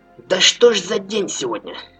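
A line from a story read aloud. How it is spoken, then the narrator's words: Grumbling. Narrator (Russian): пробурчал страж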